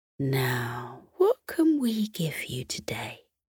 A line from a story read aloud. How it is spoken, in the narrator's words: muttered under her breath